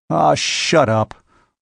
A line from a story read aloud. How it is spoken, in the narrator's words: growled Robert